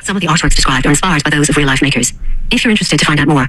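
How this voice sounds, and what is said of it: Very fast speech, Irish accent. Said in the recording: “They're talking so fast... It's just in 2x speed... it's an Irish accent”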